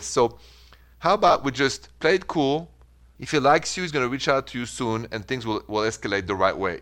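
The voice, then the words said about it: French accent. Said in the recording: “your beautiful accent... French accent”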